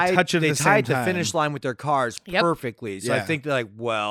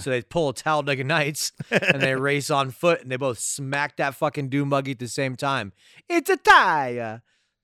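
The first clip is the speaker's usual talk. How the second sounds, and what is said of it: Put-on California accent. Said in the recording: “Don't you like my California accent?”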